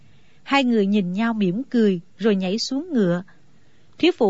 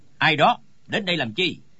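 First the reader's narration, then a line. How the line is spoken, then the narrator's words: Sudden shouted question. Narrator (Vietnamese): Trong đám người bỗng có tiếng quát hỏi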